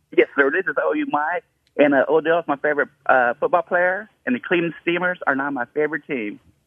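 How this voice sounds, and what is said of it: Put-on accent. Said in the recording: “He put on an accent.”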